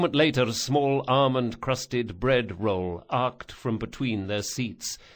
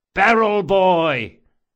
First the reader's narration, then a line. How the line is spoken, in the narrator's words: the Sansa brothers hollered in unison